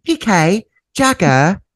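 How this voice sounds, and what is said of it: Imitating Dorit's accent. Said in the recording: “Your accent changes on every question.”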